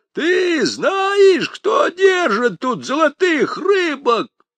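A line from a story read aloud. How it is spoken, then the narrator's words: Yelling at full strength. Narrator (Russian): изо всей силы заорал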